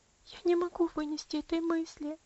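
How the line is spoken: Sobbing. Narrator (Russian): рыдала Аделаид

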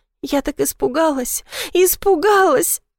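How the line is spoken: Sobbing. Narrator (Russian): Рыдаю

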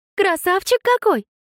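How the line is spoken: Squeaked. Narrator (Russian): пискнула Эмбер

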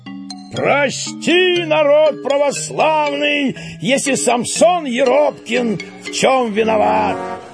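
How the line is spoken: Booming shout. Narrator (Russian): зычно крикнул

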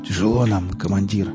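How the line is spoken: Hoarse rasp. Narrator (Russian): прохрипел

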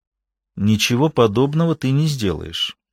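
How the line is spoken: Almost calm. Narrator (Russian): сказала она почти спокойно

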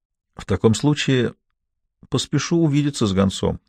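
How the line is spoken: Calm, hiding excitement. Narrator (Russian): отвечал я спокойным тоном, хотя сердце зачастило от волнения

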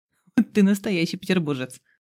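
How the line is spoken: Laughing. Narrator (Russian): смеялся Дима

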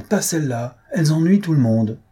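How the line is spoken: Count exclaiming. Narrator (French): s'écria le comte

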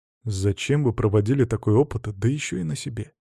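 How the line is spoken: Quiet, gentle. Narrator (Russian): Адам Никитич тихо, мягко сказал

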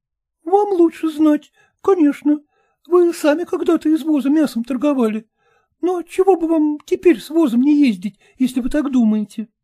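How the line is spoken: Timid wife. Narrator (Russian): робко сказала жена

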